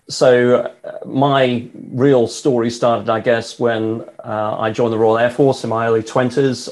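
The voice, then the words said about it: British accent. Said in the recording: “as you can tell from the accent, I not only live in the UK, I'm British”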